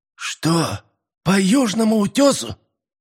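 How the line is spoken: Incredulous exclamation. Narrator (Russian): недоверчиво воскликнул Лука

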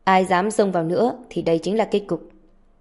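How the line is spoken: Cold warning. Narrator (Vietnamese): Hắn ta lạnh lùng nói với mọi người

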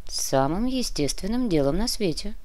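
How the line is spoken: Commissioner speaking quietly. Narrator (Russian): негромко произнес комиссар

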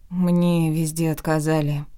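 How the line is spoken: Dejected voice. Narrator (Russian): упавшим голосом сообщила я

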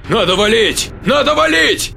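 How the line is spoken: Shouting. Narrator (Russian): закричал Бернардо

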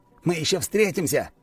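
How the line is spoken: Shout. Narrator (Russian): крикнул

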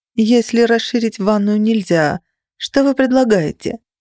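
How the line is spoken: Glum question. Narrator (Russian): уныло осведомилась я

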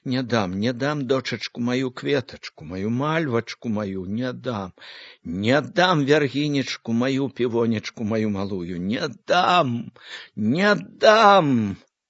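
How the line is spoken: Breathless grief-stricken whisper. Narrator (Belarusian): шаптала, задыхалася ад гора, ад любасці

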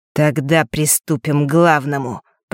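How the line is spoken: Through gritted teeth. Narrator (Russian): процедил Марк

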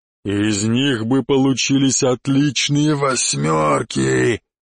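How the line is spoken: Growl from above. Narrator (Russian): прорычал черный откуда-то сверху

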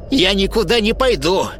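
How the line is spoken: Sharp reply, old woman. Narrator (Russian): резко ответила старуха

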